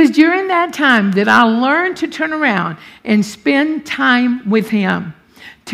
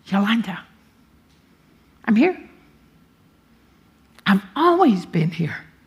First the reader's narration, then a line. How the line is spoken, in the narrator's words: I heard the Lord whisper